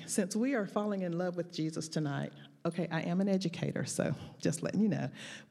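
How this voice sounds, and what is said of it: Southern drawl accent. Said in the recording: “you're going to hear my southern drawl ... I'm from the South, and in the South ... we generally talk pretty loud”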